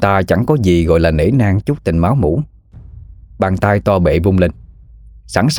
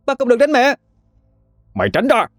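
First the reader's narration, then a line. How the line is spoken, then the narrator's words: Screaming child. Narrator (Vietnamese): Nó thét lên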